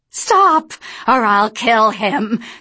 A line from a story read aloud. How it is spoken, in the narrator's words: Sophia shouted at the angels